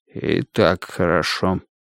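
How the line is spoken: Muttering. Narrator (Russian): пробормотал Страйк

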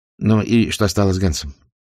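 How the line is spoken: Sorrowful sigh. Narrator (Russian): Хетль сокрушенно вздохнул

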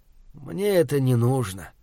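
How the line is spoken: Tired. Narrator (Russian): устало проговорил я

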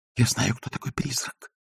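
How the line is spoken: Whisper. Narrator (Russian): прошептал Агнеса

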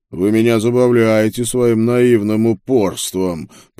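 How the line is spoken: Monstrous growl. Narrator (Russian): прорычала тварь из ада

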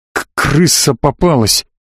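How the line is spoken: Muffled mutter. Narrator (Russian): глухо пробормотал Славик

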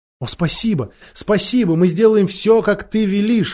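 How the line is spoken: Girls exclaiming together. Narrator (Russian): воскликнули девочки

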